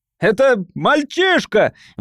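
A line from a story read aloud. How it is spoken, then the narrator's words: Shouted. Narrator (Russian): выкрикнул он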